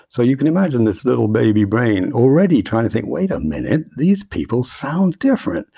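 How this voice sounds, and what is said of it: British accent. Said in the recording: “you can hear I've got a pretty good British accent”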